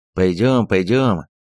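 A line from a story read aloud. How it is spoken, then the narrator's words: Old grouch grumbling. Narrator (Russian): проворчал старый брюзга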